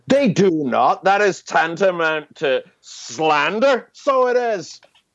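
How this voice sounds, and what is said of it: Put-on accent. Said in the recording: “that accent”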